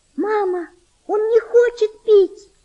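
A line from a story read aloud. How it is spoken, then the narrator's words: Girl's desperate scream. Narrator (Russian): с отчаянием закричала девочка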